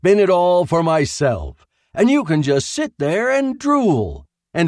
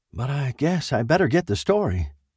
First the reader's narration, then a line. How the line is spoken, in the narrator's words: sighed the man in the chair